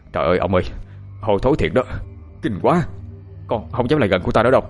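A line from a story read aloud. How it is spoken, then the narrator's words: Breathless, panting. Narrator (Vietnamese): chúng thở hổn hển nói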